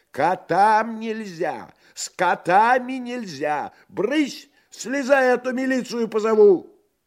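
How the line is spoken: Angry, shaking shout. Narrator (Russian): Та со злобой, от которой даже тряслась, закричала

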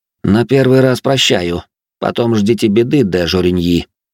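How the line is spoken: Cold tone. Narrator (Russian): произнес Жозе все тем же холодным тоном

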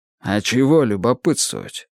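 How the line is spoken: Grumbling. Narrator (Russian): проворчал

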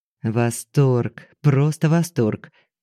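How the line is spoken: Muttering. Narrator (Russian): бормотал он

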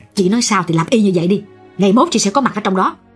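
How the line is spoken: Mildly irritated. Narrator (Vietnamese): Chị Năm gắt nhẹ

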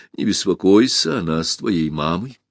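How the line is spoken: Calm reply. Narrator (Russian): Ирия совершенно спокойно ответила

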